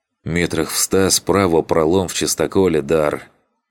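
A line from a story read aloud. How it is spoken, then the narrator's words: Through clenched teeth. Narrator (Russian): сквозь сжатые зубы процедил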